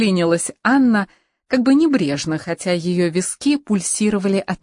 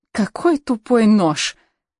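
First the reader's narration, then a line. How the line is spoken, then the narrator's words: Through gritted teeth. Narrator (Russian): процедила Анна сквозь зубы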